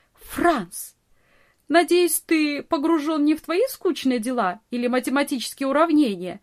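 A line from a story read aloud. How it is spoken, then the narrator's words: Laughing, teasing scold. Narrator (Russian): Смеясь, журила его Нони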